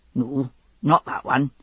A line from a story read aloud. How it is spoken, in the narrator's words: he muttered